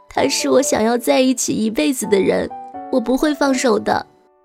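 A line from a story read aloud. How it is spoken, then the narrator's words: Crying. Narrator (Chinese): 方小小一边哭一边说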